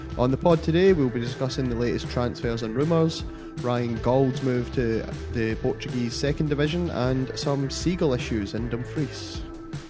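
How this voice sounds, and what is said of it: Congested, stuffy voice. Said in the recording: “I've got a cold”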